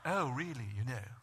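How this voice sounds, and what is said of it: Mock posh Oxford accent. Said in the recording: “They always have an Oxford accent, too.”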